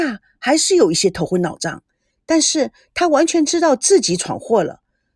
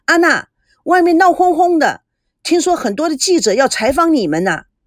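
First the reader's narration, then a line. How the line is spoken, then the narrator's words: Loud booming voice. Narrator (Chinese): 大嗓门的阿朱大声地说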